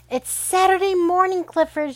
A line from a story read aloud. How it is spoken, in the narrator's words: shouted Emily Elizabeth